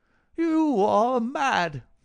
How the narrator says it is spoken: he cried

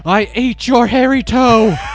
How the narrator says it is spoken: The old woman sat bolt upright in terror and shouted

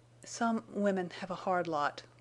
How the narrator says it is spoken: he said huskily

